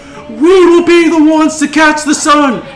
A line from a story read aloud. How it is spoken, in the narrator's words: only a few people from the crowd, like maybe like half of them, yell